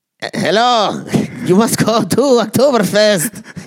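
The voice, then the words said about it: Put-on German accent. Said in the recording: “I want to hear your German accent. ... You want to hear my German accent? ... There's like a blanket accent”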